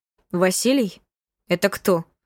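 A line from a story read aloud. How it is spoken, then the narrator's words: Cold question. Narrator (Russian): холодно спросила Есения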